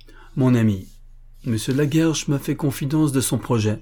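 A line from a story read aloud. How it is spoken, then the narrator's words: Plain. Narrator (French): dit Renaud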